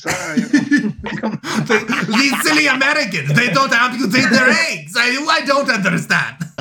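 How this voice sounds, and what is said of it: Put-on foreign accent. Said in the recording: “Are we back to the French? ... That was not a French accent.”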